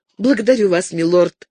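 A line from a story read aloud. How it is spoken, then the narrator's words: Timid trembling voice. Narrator (Russian): пролепетала Розамунда, боясь, что он заметит, как дрожит ее голос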